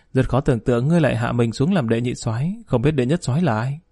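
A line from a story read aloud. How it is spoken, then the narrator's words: Startled giggling. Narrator (Vietnamese): Triệu Tĩnh Nghiến sửng sốt cười khúc khích nói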